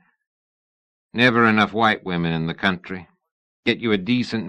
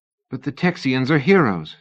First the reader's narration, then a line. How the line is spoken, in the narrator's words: Sybil said, desperately trying to remember a name from Houston's speech